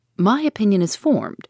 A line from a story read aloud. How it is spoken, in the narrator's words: replied Ned Land, sharply